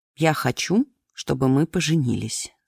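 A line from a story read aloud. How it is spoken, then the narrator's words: Plain. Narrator (Russian): сказал он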